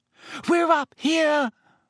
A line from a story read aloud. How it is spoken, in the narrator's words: Hermione screamed suddenly